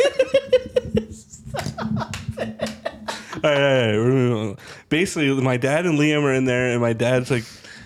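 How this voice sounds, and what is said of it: Usual voice. Nothing is said of it.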